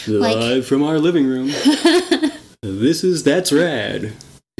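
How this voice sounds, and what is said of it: Radio announcer voice. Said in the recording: “that's my radio announcer voice”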